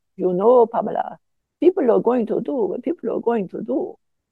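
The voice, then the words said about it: Bad Swiss German accent. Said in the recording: “That's a very bad Swiss German accent.”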